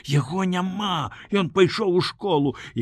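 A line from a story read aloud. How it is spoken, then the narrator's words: Whisper. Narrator (Belarusian): Саша шаптала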